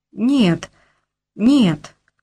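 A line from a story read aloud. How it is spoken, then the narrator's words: Stammering. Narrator (Russian): говорю я, запинаясь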